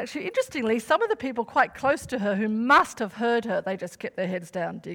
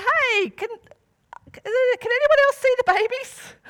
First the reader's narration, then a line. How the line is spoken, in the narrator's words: she called out to the people around her and she said